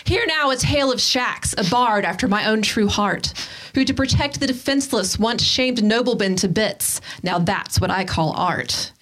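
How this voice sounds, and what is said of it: Dramatic storyteller's voice. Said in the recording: “In my best storytelling voice”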